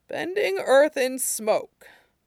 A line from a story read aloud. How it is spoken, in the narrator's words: Tao mused, sighed